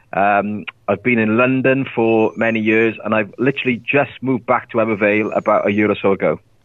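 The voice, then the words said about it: Welsh accent. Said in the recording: “he doesn't sound like he's in America ... That explains the accent”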